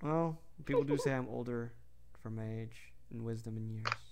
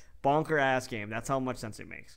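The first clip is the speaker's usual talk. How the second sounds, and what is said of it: Riled-up old man voice. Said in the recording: “You sound like a riled up grandpa.”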